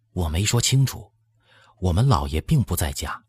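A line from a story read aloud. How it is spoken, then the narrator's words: Lowered voice. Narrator (Chinese): 压低了嗓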